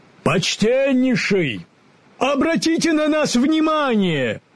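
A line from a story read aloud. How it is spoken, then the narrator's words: Shout. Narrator (Russian): крикнул Древосек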